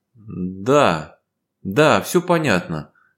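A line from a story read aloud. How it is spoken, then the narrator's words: Girl, forced, surprisingly even. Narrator (Russian): выдавила девочка на удивление ровным голосом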